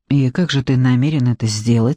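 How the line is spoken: Plain. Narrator (Russian): спросил Джекоби

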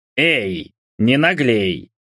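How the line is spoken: Indignant retort. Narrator (Russian): возмущенно бросил Джимми

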